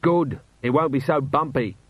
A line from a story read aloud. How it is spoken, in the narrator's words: shouted Vimes